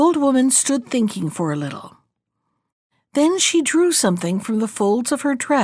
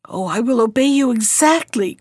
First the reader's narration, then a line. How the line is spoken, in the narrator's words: cried the queen